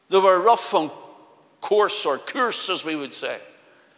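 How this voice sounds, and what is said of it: Belfast accent. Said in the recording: “Just like my own, I'm a Belfast man. ... my accent used to be stronger. I just refined it more through the years”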